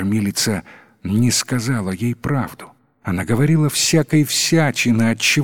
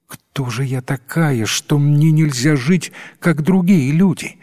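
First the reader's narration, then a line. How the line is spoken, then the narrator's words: Exclamation. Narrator (Russian): воскликнула девушка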